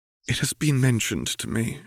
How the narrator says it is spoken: she sighed

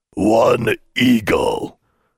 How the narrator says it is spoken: the toll troll grunted

